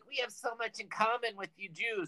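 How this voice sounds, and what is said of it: Put-on Jewish accent. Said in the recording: “I'm doing a Jewish accent.”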